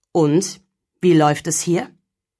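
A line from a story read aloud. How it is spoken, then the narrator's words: Deep-voiced Santa asking. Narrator (German): fragte der Weihnachtsmann mit tiefer Stimme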